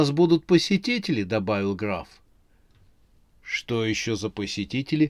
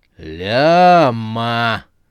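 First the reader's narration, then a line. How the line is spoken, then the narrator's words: Menacing drawl. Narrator (Russian): угрожающе протянул Бизон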